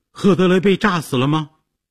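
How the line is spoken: Shouted question. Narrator (Chinese): 杰西卡大叫着问

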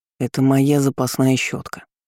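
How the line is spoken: Displeased grumble. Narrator (Russian): буркнул недовольно

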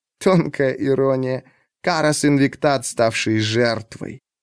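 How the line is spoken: Laughing. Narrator (Russian): Она снова засмеялась, уже не кашляя, и сказала

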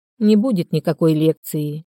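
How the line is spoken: Sigh. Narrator (Russian): вздохнула

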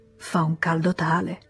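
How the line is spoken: Sighing. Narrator (Italian): Léon sospirò

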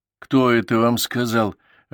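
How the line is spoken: Angry reply. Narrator (Russian): ответил я сердито

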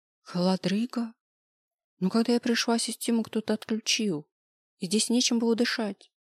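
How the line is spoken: Timid objection, young woman. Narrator (Russian): робко возразила девушка

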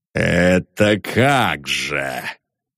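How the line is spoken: Gloomy question. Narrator (Russian): мрачно спросил Лебедев

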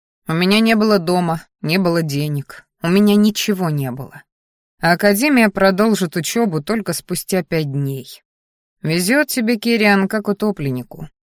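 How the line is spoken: Guilty snort. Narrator (Russian): хмыкнул я, ощущая себя свинским предателем

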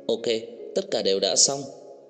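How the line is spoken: Smiling. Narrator (Vietnamese): Nhân viên công tác mỉm cười nói

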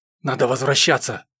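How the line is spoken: Whisper. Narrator (Russian): шепнул Алексей

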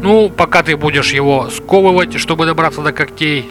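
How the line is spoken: Displeased grumbling. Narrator (Russian): недовольно заворчал Рубас

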